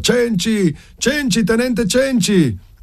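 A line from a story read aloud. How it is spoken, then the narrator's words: Shouting. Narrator (Italian): Cenci dal suo caposaldo gridare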